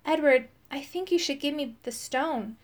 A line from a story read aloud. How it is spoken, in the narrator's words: said gently